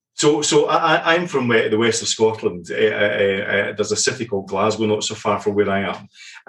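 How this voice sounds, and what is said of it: Scottish accent. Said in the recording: “you can tell from ... accent, he's a real Scotsman”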